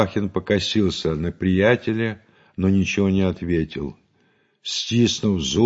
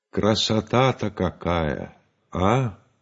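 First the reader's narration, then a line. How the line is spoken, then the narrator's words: Thoughtful. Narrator (Russian): Стрельцов задумчиво сказал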